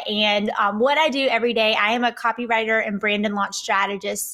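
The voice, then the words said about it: Southern US accent. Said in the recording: “Based off my accent, I am here in Atlanta, Georgia.”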